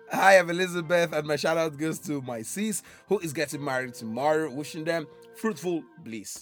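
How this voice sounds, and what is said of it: Voice nearly lost, sounds unusual. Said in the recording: “I've lost my voice. I've lost my voice... I know I've lost my voice, but you know, this is not the me sounding.”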